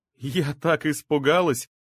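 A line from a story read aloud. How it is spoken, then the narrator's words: Loud laughing. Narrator (Russian): засмеялась громко Оксана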